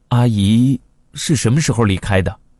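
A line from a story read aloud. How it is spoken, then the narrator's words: Shocked, trembling question. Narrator (Chinese): 惊诧无比的颤声问他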